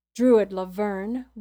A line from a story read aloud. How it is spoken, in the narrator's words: one said